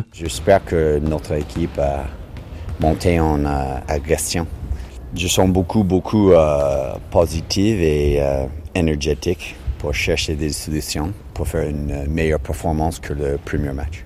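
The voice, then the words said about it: Strong Canadian accent in French. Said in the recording (French): “l'entraîneur canadien ... qui s'exprime en français avec un fort accent”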